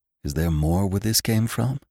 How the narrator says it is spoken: he whispered

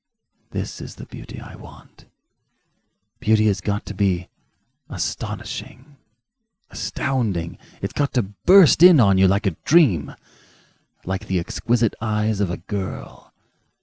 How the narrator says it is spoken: said Carlyle softly

